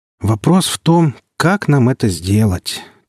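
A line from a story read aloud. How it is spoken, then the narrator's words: Heavy sigh. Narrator (Russian): тяжело вздохнул Глазков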